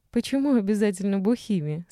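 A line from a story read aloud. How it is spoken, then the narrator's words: Sleepy drowsy laugh. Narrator (Russian): сонно рассмеялась сквозь наплывшие на нее оцепенение, прозрачные и теплые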